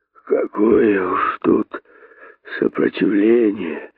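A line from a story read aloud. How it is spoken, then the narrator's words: Sighing, dying hare. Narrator (Russian): Вздохнул косой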